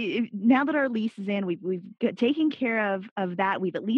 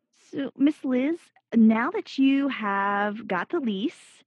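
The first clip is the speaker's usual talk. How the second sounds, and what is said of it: Put-on Nashville Southern accent. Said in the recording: “did y'all hear my accent? I'm like doing the Miss Liz thing now. That's a very Nashville thing.”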